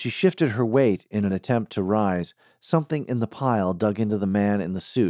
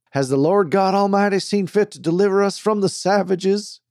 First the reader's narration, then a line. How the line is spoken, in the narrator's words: woke the freshly slapped preacher, who exclaimed